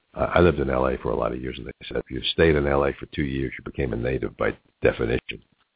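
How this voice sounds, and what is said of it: New York accent. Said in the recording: “My New York accent never goes away”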